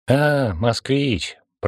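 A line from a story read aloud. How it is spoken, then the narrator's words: Sympathetic drawl. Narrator (Russian): протянула с плохо скрываемым сочувствием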